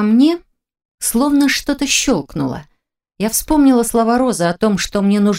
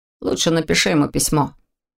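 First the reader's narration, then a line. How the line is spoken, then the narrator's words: Gloomy advice. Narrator (Russian): посоветовал Корт мрачно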